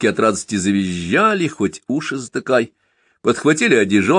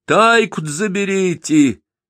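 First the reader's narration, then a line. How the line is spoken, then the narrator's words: Woman shouting after someone. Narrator (Russian): крикнула баба во след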